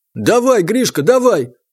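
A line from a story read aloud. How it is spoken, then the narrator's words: Excited group yelling. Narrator (Russian): возбужденно орали парни, окружившие бойцов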